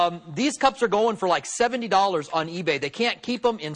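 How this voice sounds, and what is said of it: Usual voice. Nothing is said of it.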